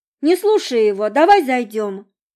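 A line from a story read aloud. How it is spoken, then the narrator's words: Loud interruption. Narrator (Russian): громко перебила его Монро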